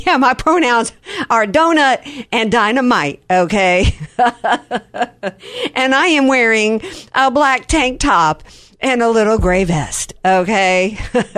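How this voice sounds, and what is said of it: Imitates another person's voice. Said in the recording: “my Kamala Harris impersonation”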